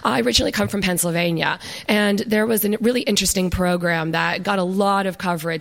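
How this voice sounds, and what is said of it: American accent. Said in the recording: “I'm clearly an American, as you can probably tell from my accent.”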